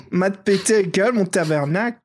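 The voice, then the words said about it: Put-on other accent. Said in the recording (French): “je fais l'autre accent”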